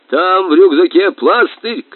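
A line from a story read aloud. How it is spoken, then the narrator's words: Shouting. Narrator (Russian): кричал капитан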